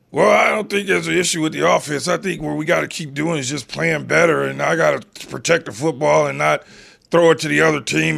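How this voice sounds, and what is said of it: Patrick Mahomes impression, froggy throat. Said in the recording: “did that with his voice ... Is that how Patrick Mahomes sounds? ... a little bit of a frog in the back of Patrick Mahomes' throat”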